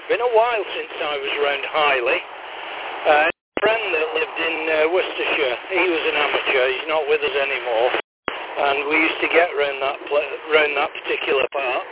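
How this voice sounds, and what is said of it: Northern English accent. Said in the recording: “you sound like you've got a, well, to me anyway, a northern accent.”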